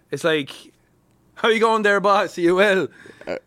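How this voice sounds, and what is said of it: Put-on Dublin Irish accent. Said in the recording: “a good Irish accent, you need to aim for the ones that aren't like the generic one ... Or you go like full dub”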